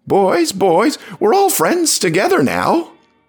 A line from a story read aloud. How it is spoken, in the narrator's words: I heard someone screech